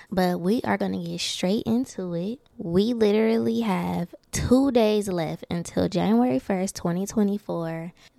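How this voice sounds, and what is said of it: Stuffy, congested voice. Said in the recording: “forgive my voice. ... I'm a little stuffy and I can hear it, so I know you guys can.”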